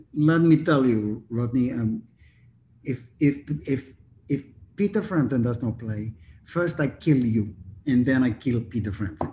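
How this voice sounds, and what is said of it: Put-on Russian accent. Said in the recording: “in my best Russian accent”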